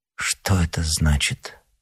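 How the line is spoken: Timid question. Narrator (Russian): почти робко спросила королева

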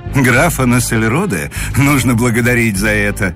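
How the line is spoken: Laughing. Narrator (Russian): смеялся Муравьев

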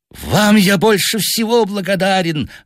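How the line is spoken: Hateful exclamation. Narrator (Russian): воскликнул он с ненавистью

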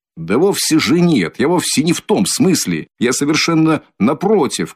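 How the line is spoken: Upset shouting. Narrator (Russian): кричал огорченный Разумихин

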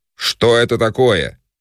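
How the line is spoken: Shouting. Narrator (Russian): кричал

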